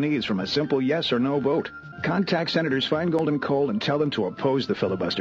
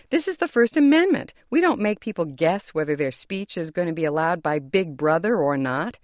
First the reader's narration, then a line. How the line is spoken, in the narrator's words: Justice Scalia, his voice rising